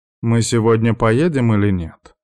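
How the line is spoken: Displeased grumble. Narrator (Russian): недовольно проворчала Ханака

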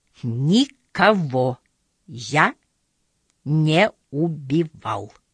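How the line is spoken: Clipped deliberate words. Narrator (Russian): Отчеканивая каждое слово, произнес Короткий

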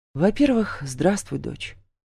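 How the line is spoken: Calm reply. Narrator (Russian): спокойно отвечаю я

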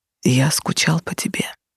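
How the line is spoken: Whispered. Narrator (Russian): шепнул

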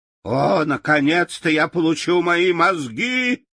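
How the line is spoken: Shout. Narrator (Russian): крикнул Страшила

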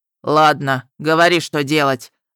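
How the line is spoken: Angry grumble. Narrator (Russian): злобно проворчал разрыватель трупов

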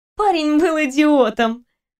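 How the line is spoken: Snorting. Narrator (Russian): хмыкнула Кристина

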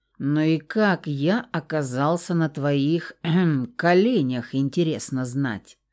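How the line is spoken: Ominous tone. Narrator (Russian): Зловещим тоном начал пернатый

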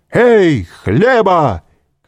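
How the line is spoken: Shout. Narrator (Russian): крикнул он

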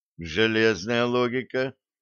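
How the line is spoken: Dejected sigh. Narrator (Russian): удрученно вздохнул Блад

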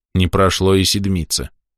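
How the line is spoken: Grumbling. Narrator (Russian): проворчал

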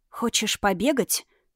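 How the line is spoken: Whispered. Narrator (Russian): шепнула Юна

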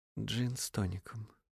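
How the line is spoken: Quiet reply. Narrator (Russian): негромко отозвался незнакомец

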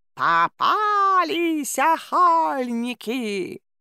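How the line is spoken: Booming harsh croak. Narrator (Russian): прогрохотала противным каркающим голосом

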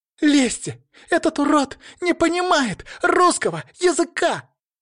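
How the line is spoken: Shriek. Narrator (Russian): взвизгнула Алина

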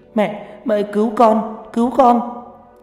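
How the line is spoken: Wailing in pain. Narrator (Vietnamese): Mai bắt đầu gào khóc trong đau đớn

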